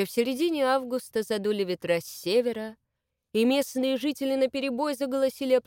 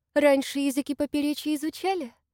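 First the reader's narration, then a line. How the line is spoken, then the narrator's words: Honeyed, self-important young woman. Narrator (Russian): Медовым голосом поинтересовалась Маша, лучащаяся чувством собственной значимости барышни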